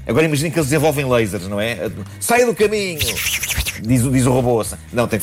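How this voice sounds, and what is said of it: Usual voice. Nothing is said of it.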